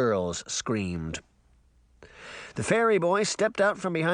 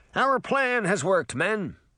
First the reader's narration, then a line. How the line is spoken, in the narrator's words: Puck shouted over the music